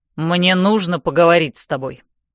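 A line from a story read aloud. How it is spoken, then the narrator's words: Through gritted teeth. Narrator (Russian): говорит сквозь зубы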